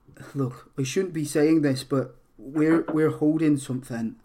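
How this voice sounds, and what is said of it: Poorly done put-on accent. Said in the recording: “I can't do the accent that well ... That was completely the wrong accent”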